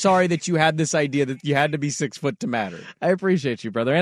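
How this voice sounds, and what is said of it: Usual voice. Nothing is said of it.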